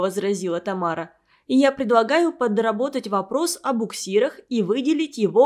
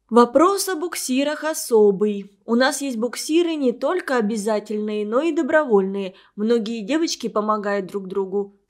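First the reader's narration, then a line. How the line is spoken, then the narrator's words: Plain. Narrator (Russian): сказала Катя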